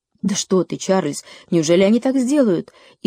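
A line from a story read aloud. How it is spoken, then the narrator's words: Frightened mother exclaiming. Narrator (Russian): испуганно воскликнула мама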